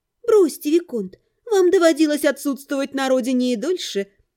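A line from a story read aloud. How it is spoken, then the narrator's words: Laughing again. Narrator (Russian): Снова рассмеялась Эвелина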